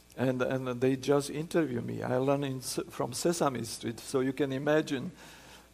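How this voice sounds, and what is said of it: Non-native English accent. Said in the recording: “And still I cannot speak without accent.”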